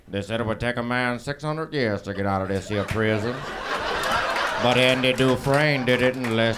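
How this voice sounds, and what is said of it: Imitates another person's voice. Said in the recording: “I only have one impression ... it's Morgan Freeman's”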